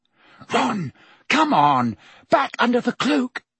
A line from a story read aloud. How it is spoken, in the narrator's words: Hermione panted